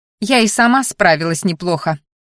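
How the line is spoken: Scoffing snort. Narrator (Russian): фыркнула

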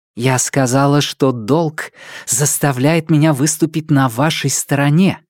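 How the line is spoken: Furious whisper. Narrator (Russian): яростно прошептала

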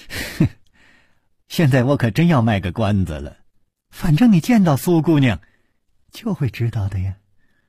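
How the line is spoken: Laughing. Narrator (Chinese): 柳无眉却总是笑着说

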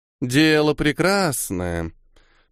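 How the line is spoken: Drawled. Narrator (Russian): Протянула Хьёда

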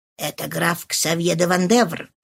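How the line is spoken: Whisper in ear. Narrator (Russian): шепнул Фошри на ухо де ла Фолуаз

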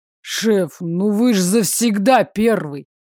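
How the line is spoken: Big man grumbling. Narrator (Russian): пробурчал здоровяк

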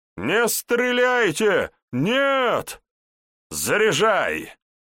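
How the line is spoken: Loud command, chuckling. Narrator (Russian): посмеиваясь, громко скомандовал Вожников

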